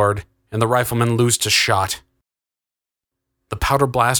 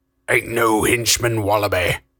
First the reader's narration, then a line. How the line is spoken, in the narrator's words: Crust growled